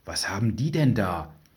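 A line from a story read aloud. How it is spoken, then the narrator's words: Whispered. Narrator (German): flüsterte Alice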